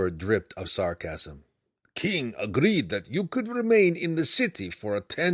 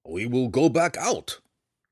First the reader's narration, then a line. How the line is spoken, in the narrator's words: Belwar growled